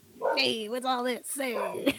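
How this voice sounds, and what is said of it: Imitates Beetlejuice character voice. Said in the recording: “That's my Beetlejuice impression.”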